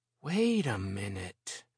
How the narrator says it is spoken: she said slowly and in a low voice

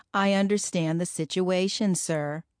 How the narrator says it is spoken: Lucy said

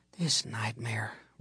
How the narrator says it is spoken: repeated my mother wearily

